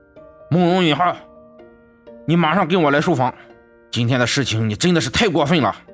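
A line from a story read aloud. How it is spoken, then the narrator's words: Angry. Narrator (Chinese): 满脸愤怒的对着楼上说道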